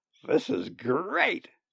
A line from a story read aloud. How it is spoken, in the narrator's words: Brendan croaked